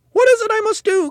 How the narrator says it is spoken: cried Mrs

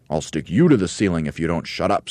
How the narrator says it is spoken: snapped Mugglewump

